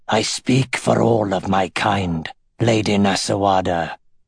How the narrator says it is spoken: he purred

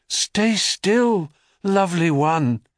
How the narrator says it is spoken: he breathed

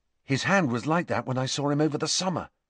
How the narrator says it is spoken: Harry whispered to Hermione

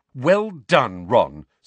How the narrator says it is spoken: snapped Hermione

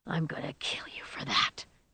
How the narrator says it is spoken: he whispered

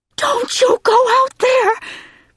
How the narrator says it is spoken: she screamed

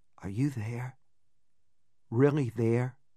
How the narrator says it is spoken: in a husky whisper I hardly recognized, I said

